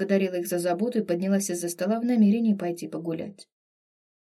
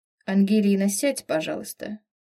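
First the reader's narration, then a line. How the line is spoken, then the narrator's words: Outwardly soft, unyielding request. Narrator (Russian): попросила с виду мягко, но непреклонным тоном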